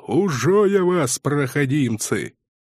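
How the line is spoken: Growled. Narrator (Russian): рычал

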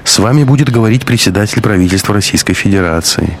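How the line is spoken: Flat, colorless voice. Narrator (Russian): уточнил референт бесцветным голосом

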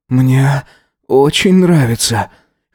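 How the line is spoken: Hoarse reply. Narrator (Russian): хрипло ответил он

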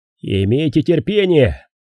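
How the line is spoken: Shouted. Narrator (Russian): крикнул он

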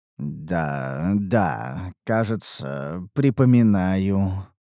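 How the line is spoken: Muttered. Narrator (Russian): пробормотал я

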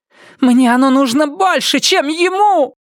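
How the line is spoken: Wailing. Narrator (Russian): взвыла она

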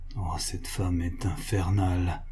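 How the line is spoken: Murmured by financier. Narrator (French): murmura le financier

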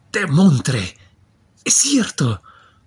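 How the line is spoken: Joyful shipowner exclaiming. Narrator (Spanish): exclamó muy alegre el armador

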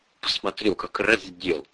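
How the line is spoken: Mutter. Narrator (Russian): пробормотала Ольга

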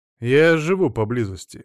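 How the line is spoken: Heavy sigh. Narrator (Russian): господин Зельдман тяжело вздохнул

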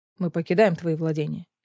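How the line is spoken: Calm. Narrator (Russian): спокойно произнес Кассиан

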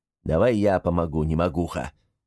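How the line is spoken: Grumble. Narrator (Russian): проворчал гремлун

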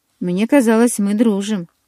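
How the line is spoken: Frowning, through gritted teeth. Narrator (Russian): нахмурившись, процедила я

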